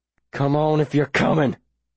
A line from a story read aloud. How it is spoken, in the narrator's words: I growl